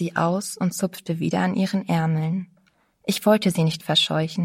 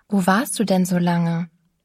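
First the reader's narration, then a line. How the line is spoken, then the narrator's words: Plain question. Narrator (German): fragte ich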